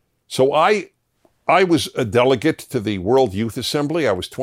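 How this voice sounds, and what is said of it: Usual voice. Nothing is said of it.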